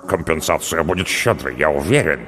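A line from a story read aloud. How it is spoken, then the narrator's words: Muttered. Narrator (Russian): пробормотал Хараль Марра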